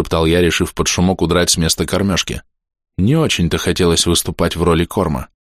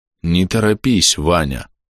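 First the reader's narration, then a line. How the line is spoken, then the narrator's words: Very tired creature. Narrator (Russian): слишком устало сказало существо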